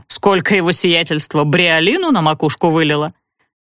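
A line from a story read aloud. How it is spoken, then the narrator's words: Perfunctory grumble. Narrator (Russian): Ворчала она для порядка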